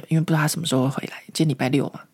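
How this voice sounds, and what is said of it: Lowered, quiet voice. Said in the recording (Chinese): “讲小声一点”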